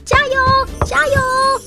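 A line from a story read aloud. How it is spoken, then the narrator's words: Crowd shouting. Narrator (Chinese): 场外的观众们喊着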